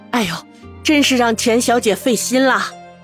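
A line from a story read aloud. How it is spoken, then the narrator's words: Light laugh. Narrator (Chinese): 叶母笑笑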